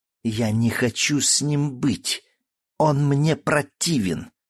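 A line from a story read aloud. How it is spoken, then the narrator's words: Hissing young woman. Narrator (Russian): зашипела девушка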